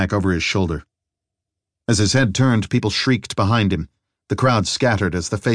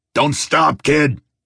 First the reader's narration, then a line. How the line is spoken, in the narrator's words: Theo snarled back over his shoulder